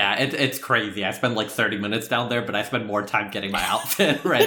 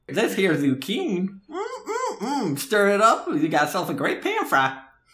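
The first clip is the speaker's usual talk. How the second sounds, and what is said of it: Put-on accent. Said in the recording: “I'm talking an accent while I'm out there.”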